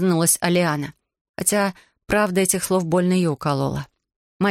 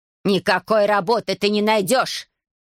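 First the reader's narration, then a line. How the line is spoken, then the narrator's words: Growling stepmother. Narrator (Russian): прорычала мачеха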